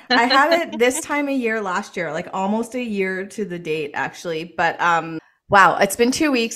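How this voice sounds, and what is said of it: Voice sounding ill and tired. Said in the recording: “You might hear it in my voice. I'm just recovering from COVID.”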